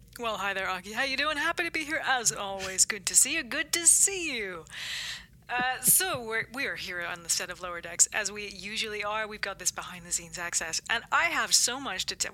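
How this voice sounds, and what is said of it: Good put-on American accent. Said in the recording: “Why am I gone American? ... Your American accent's really good.”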